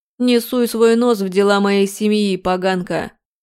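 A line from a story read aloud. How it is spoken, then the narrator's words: Hoarse, coughing. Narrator (Russian): сипло ответил Виктор, закашлившись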